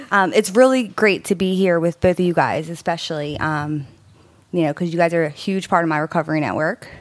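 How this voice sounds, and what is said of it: Speaking slightly out of breath. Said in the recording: “I'm still out of breath because, you know, we were rushing as usual.”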